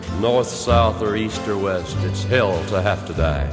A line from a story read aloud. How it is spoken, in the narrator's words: someone muttered